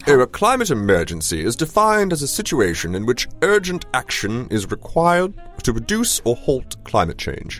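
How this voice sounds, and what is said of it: Put-on British accent. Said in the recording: “I should probably have a British accent, right?”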